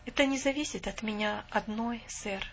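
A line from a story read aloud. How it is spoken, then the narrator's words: Calm. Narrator (Russian): спокойно сказала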